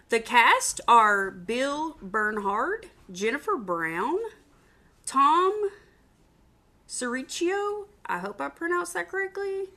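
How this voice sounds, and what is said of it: Southern US accent. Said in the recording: “I sound like a hick, and I'm from the South ... I don't always pronounce things in the best way. My Southern accent”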